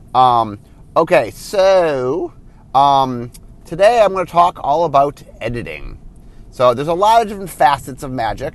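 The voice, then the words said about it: Sick-sounding voice. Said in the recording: “I am sick. That's why my voice sounds the way it is.”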